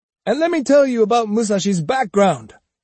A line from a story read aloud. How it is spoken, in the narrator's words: he cried indignantly